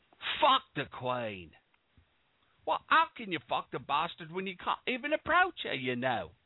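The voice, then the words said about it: Mock British Cockney accent. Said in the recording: “That's my British accent. ... It's just like your Southern accent, Cockney as fuck.”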